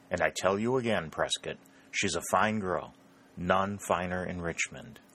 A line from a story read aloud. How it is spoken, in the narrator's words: replied Harley coolly